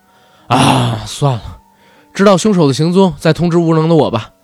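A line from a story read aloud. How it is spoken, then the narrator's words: Sighing. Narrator (Chinese): 赤川叹道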